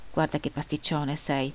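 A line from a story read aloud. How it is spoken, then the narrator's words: Grumbling. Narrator (Italian): brontolava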